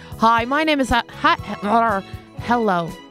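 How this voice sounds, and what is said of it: Put-on American accent. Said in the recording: “I don't know why I'm sounding American.”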